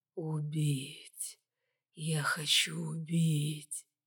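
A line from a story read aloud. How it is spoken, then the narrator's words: Hissing. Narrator (Russian): зашипел Максик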